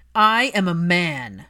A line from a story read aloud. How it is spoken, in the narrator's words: Draco's voice thundered